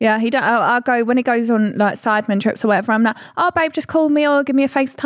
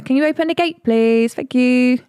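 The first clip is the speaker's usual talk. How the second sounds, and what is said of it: Up-and-down sing-song voice. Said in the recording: “You just sound confused ... Your voice is like up and down ... why do you sound like that? ... Singing.”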